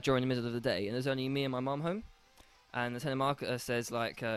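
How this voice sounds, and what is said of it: Usual voice. Nothing is said of it.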